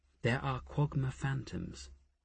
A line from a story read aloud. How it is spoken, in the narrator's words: Asher murmured in their ears